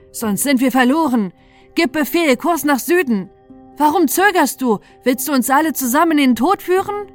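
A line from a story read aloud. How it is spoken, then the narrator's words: Helmsman calling out. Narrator (German): rief der Steuermann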